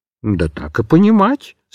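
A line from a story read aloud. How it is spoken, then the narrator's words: Calm. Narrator (Russian): спокойно отвечал котик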